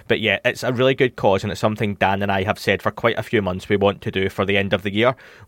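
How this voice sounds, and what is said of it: Self-described dodgy accent. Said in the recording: “my dodgy accent”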